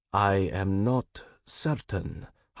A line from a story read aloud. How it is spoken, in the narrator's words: Harun said slowly